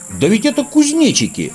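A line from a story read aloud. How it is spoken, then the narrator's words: Exclamation. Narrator (Russian): воскликнул Снорк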